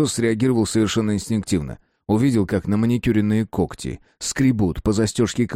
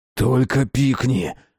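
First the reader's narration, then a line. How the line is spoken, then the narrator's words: Growled. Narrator (Russian): рыкнул он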